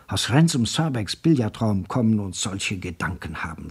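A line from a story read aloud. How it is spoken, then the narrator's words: Whispered. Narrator (German): flüsterte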